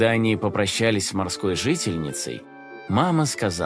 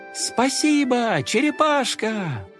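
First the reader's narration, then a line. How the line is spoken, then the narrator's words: Shouting in chorus. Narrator (Russian): Все хором закричали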